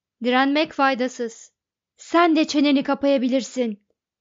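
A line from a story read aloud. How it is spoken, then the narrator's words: Shouting. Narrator (Turkish): diye bağırdı Ford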